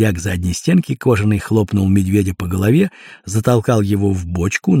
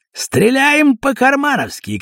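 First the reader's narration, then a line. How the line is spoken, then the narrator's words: Shouted. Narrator (Russian): крикнул он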